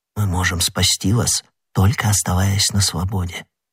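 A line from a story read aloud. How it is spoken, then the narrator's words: Quick whisper. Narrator (Russian): быстро шепнул ему Д'Артаньян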